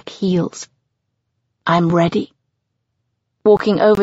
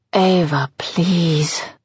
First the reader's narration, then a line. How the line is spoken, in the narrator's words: he moans